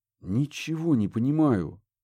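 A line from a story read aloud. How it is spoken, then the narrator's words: Breathed out. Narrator (Russian): выдохнул Курт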